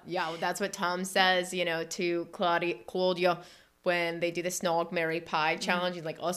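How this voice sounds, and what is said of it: Usual voice. Nothing is said of it.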